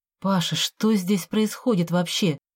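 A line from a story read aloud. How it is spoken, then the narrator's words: Quiet question. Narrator (Russian): тихо поинтересовалась я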